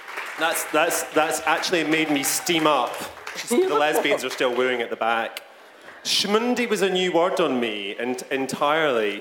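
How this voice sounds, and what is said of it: Scottish accent. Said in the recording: “You're saying it very nicely. With that nice Scottish Yiddish accent.”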